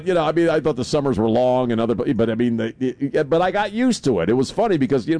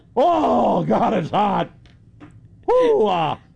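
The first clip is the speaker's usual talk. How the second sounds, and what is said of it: Exaggerated overheated exclamations. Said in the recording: “here's an imitation of myself during my first summer in South Texas ... That's a good imitation.”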